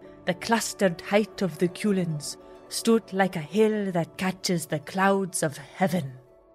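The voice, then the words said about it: Put-on Welsh accent, slightly wavering. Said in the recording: “what do you rate my Welsh accent? ... It edged into Professor McGonagall territory at one point, but you pulled it back.”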